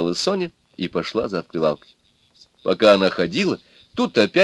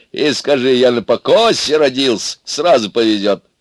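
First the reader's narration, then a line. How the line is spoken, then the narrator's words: Several voices laughing. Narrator (Russian): засмеялись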